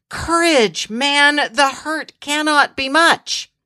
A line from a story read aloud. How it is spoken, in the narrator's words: desperately trying to assure